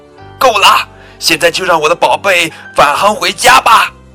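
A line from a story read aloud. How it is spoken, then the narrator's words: Loud shout. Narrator (Chinese): 布朗太太朝着宇航中心的管理员大声喊道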